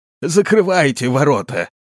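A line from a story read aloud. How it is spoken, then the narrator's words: Breathless hoarse shout. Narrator (Russian): Задыхаясь от быстрого бега, он хрипло закричал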